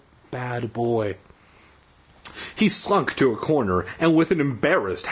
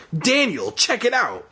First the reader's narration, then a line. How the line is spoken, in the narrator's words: I exclaimed